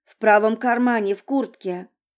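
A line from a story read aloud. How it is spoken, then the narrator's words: Plain. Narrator (Russian): сказал он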